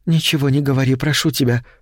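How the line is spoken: Whisper. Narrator (Russian): прошептала она

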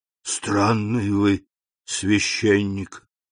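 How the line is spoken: Whisper. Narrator (Russian): прошептал Кадрус

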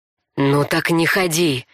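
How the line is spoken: Angry hiss. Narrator (Russian): прошипел Орек, пряча свои чувства, если они у него были, под маской гнева

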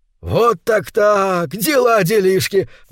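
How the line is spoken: Exclamation. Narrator (Russian): воскликнул он

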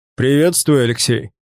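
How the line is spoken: Booming voice. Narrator (Russian): прогремел знакомый голос

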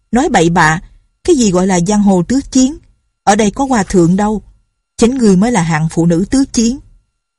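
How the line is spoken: Indignant group shouting. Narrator (Vietnamese): Bọn đệ tử phái Hằng Sơn đều căm phẫn bất bình, mấy người cùng la lên

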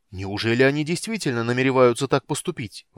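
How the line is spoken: Exclamation. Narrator (Russian): воскликнул Стурм

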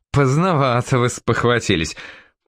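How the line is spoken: Laughing. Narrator (Russian): Пассан засмеялся

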